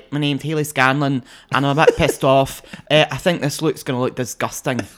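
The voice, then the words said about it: Imitated Dundee accent, annoyed tone. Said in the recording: “she's from Dundee. The way she talks ... your Hayley Scanlon impression”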